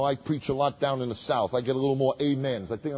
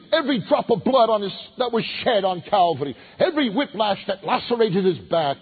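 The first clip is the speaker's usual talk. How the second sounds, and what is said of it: Put-on Southern drawl preaching. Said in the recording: “I'm going to give you a Southern drawl here.”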